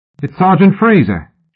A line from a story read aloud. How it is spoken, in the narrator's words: shouted the dough-faced boy in horror